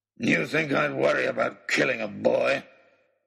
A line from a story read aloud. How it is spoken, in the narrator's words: snarled